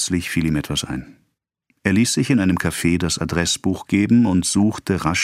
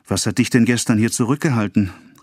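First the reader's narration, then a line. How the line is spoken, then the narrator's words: Called out. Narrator (German): rief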